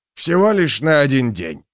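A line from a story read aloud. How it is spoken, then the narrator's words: Snort. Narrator (Russian): фыркнул Клевер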